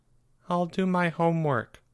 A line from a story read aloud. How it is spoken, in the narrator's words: mumbled Charlie